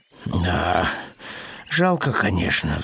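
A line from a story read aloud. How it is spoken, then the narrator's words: Sighing. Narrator (Russian): вздохнул Пэтсон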